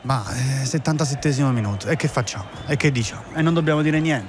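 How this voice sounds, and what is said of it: Bored, listless commentary delivery. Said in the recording (Italian): “mi sento annoiato ... E allora fai la radiocronaca annoiata.”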